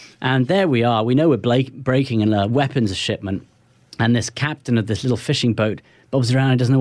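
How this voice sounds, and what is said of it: Usual voice. Nothing is said of it.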